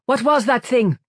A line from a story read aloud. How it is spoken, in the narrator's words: cried Nielsen